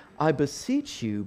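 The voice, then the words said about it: Put-on regal British accent. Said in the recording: “you got to use a British accent. It just sounds very kind of like royal and regal.”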